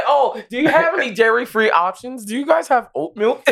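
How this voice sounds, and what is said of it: Mock white person impression voice. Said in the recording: “your white person impression”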